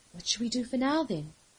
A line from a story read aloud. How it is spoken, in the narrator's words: List asked, her voice quiet but calm